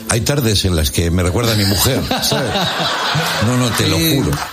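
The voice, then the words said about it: Put-on Argentine Spanish accent. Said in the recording (Spanish): “Te sale el acento ... Sí, me sale el acento, che”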